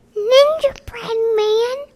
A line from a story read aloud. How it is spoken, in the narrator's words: squeaked Ninja Mouse